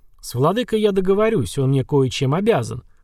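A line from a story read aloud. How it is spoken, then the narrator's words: Chuckling. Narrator (Russian): хохотнул Радужный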